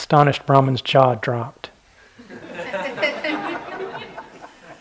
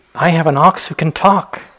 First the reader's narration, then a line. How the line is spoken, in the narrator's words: exclaimed the Brahmin